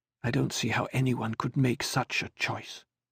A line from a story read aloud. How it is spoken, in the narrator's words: she muttered